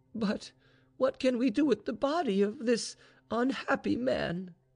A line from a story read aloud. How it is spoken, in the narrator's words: cried Vaninka